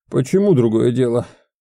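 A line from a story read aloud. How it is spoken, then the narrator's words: Strained wheeze, retired man. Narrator (Russian): Просипел побагровевший от усилия отставник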